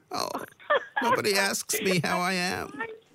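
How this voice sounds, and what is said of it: Imitates another person's voice. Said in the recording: “Your Meghan impression.”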